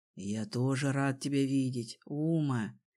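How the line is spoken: Whisper. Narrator (Russian): шепнул он

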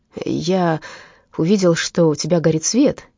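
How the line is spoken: Stammering. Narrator (Russian): запинаясь, проговорил Итирде

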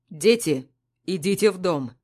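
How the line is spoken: Stern. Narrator (Russian): Строго говорит Паша

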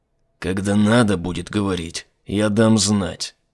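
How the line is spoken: Through gritted teeth. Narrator (Russian): процедил Айзек

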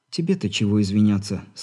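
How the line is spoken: Sighing. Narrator (Russian): снова вздохнула Алина

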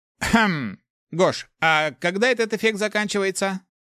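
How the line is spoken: Snide, smirking question. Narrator (Russian): хмыкнул и с ехидной улыбкой произнес

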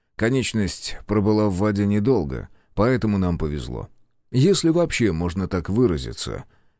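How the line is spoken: Quiet addition. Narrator (Russian): тихо добавил

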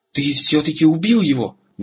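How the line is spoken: Admiring exclamation. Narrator (Russian): восхищенно воскликнул Эрагон

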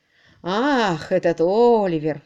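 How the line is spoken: Sighing. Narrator (Russian): вздохнул

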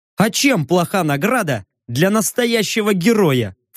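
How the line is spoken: Snorting. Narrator (Russian): фыркнул

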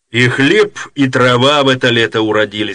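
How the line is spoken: Plain. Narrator (Russian): сказал Тиунову капитан

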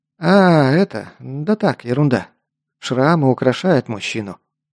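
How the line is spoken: Joking attempt. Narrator (Russian): попытался отшутиться Лок

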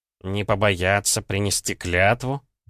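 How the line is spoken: Questioning with a grunt. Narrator (Russian): переспросил Гомельский и хмыкнул

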